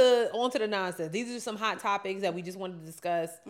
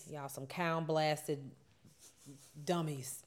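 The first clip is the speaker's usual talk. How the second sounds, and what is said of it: Put-on Alabama Southern accent. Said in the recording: “my Alabama voice”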